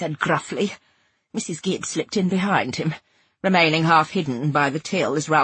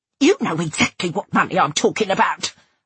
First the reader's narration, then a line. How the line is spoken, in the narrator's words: I spat